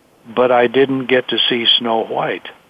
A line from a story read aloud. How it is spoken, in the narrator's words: Angela said quietly